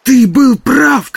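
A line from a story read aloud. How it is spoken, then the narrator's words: Shout. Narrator (Russian): крикнул Барни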